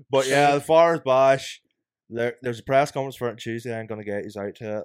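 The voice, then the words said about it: Very thick Belfast accent. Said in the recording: “See if you're from Belfast, they just talk and you just don't know what they're saying ... I've got the thickest accent ever ... I don't know what he's saying”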